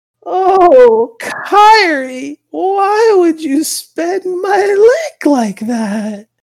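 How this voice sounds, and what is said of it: Old grandmother character voice. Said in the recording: “grandma voice”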